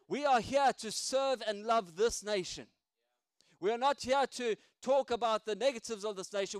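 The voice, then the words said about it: South African accent. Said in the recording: “South Africans ... I still got my accent”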